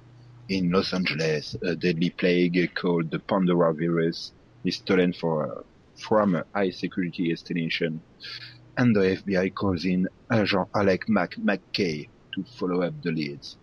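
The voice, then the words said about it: French-accented English reading. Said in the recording (French): “J'ai un super accent. Hein. Je vais pas vous faire le reste du truc parce que mon accent.”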